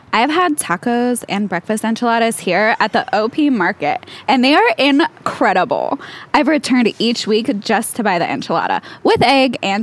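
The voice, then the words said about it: Reads aloud in a funny voice. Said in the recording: “read some good reviews of Taco Naco KC in a funny voice”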